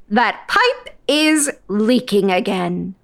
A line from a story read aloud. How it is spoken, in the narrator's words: she said sharply